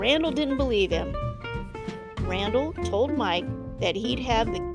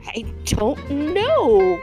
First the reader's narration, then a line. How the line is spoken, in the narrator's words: Mike sputtered